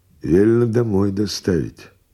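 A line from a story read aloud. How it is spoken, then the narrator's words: Cheerful male voice. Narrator (Russian): весело сказал бородатый возница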